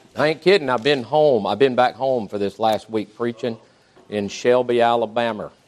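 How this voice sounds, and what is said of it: Thick Southern US accent. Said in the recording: “if my accent is a little bit thicker than usual ... it thickens up when you go home ... it's mighty thick right now”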